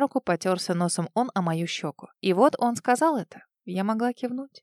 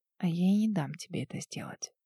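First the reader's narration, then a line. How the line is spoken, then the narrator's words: Whisper. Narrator (Russian): прошептала в ответ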